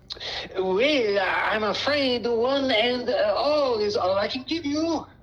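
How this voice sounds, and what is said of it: Put-on French accent. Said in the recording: “with a French accent”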